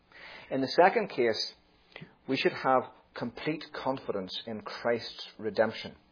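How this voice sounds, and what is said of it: Irish accent. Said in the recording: “I've got this Irish accent”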